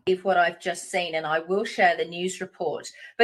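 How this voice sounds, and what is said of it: Australian accent. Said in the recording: “a good Australian accent”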